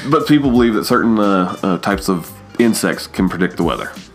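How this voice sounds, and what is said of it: Noticeable regional accent. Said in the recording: “accent is going to come out ... my accent does come out quite often”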